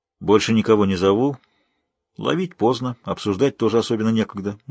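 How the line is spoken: Gloomy, curt. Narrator (Russian): мрачно бросил Ялиты

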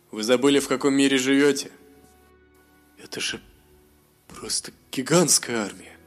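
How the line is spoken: Trembling mumble. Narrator (Russian): С дрожью в голосе промямлил Мируэль

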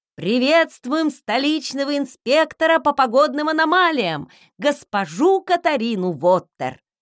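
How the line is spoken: Loud reading from paper. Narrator (Russian): громко прочитали по бумажке

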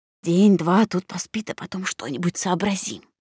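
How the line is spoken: Fussy whispered muttering. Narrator (Russian): Олла суетливо шепотом приговаривала

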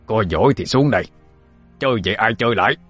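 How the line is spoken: Old man yelling. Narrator (Vietnamese): lão tổ ngẩng đầu lên mà gào

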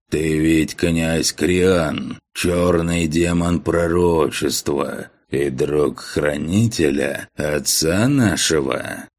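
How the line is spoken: Low hoarse voice. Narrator (Russian): трактирщик низким хриплым голосом произнес

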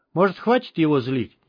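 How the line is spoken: Quiet question. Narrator (Russian): негромко спросил Андрей

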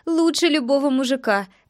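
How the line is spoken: Laughing. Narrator (Russian): добавила она, засмеявшись

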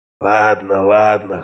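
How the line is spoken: Hoarse, childishly stubborn. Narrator (Russian): хрипел он с детским упрямством

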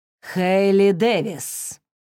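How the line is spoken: Angry near-growl, teacher. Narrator (Russian): почти прорычала сердитая воспитательница

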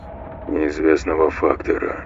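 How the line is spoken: Mutter. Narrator (Russian): пробормотал Марсель

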